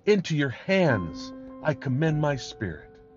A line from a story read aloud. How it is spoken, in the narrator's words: Jesus had cried with a loud voice, he said